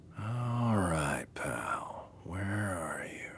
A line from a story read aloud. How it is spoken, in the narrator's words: he whispered